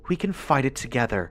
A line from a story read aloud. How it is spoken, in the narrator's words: she said shakily